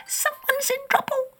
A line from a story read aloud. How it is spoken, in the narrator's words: squeaked the mouse